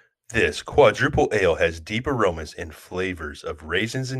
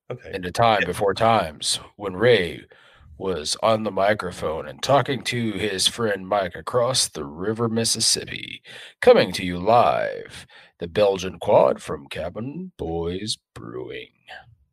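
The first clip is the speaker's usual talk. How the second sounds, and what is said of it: Movie trailer announcer voice. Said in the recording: “movie preview voice”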